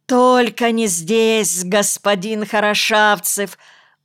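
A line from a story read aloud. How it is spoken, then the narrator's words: Pleading wail. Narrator (Russian): умоляюще завопил Карпентер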